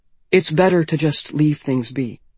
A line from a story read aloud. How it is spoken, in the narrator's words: she began falteringly